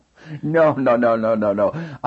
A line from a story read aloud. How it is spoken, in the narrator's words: I said with a small sarcastic laugh